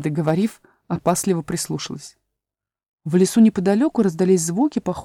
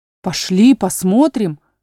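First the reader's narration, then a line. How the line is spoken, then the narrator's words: Exclaimed by brothers. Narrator (Russian): воскликнули братья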